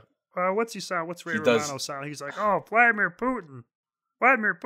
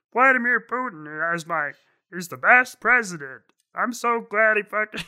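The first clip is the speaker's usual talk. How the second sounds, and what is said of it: Imitates another person's voice, Muppet-like. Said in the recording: “He can't even do his fucking voice. ... It was a little Muppety, but I heard the Ray Romano voice underneath the weighted blanket of the Muppet voice. ... he's borderline Kermit the Frog”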